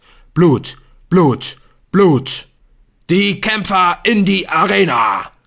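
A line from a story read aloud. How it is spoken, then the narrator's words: Roaring voice from outside. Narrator (German): brüllt eine Stimme von draußen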